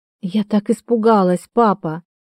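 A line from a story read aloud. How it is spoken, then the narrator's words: Loud sobbing. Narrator (Russian): Она рыдала в голос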